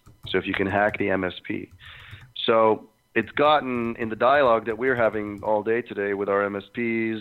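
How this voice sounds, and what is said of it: Hoarse voice. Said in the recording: “my voice so hoarse”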